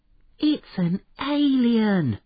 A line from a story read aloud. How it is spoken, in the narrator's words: gasped Harry